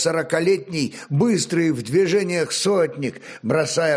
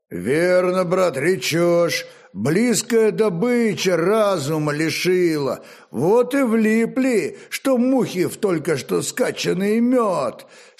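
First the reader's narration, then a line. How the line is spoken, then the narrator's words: Agreeing deep rumble. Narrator (Russian): согласно прогудел его могучий сотоварищ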